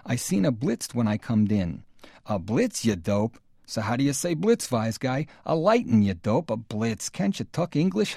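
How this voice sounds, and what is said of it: Bad put-on Yiddish accent. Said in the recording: “bad accent alert ... very bad ... You can hear that it's a Yiddish accent ... that sounds like Yiddish. I can do that a little better.”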